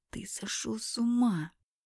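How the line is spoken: Hiss. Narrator (Russian): прошипела я

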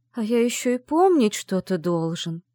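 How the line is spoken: Dejected, sinking voice. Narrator (Russian): совсем упавшим голосом произнес Орис

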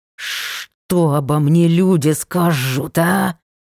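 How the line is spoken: Hissing, buzzing insect. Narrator (Russian): шипело и жужжало насекомое

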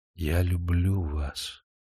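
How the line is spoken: Whisper in the ear. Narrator (Russian): Демидов прошептал на ухо

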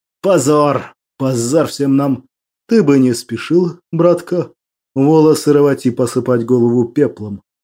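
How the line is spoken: Calm. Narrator (Russian): спокойно произнес Молчан

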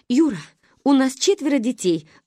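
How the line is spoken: Mother's pleading. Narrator (Russian): взмолилась мама

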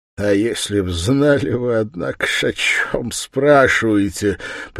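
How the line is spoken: Sudden loud short laugh. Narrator (Russian): прибавил он и вдруг громко и коротко рассмеялся

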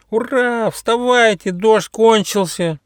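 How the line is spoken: Platypus, joyful shout. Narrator (Russian): радостно закричал утконос

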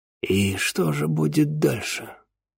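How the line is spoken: Muffled question. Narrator (Russian): глухо спросил

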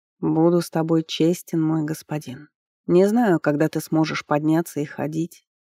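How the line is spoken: Gentle. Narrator (Russian): мягко продолжал жрец

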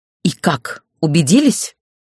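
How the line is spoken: Furious, through gritted teeth. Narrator (Russian): вне себя от ярости процедила я

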